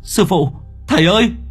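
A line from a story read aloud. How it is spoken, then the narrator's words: Boy crying out. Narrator (Vietnamese): Thằng Lượng kêu lên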